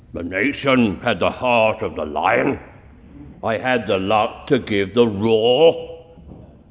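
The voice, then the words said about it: Gravelly Winston Churchill impression. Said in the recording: “that's an impersonation of Winston Churchill ... I just had a gravelly voice”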